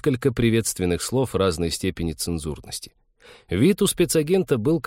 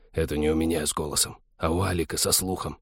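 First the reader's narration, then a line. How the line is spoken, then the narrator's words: Very soft hiss. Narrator (Russian): прошипел Вадим таким пианиссимо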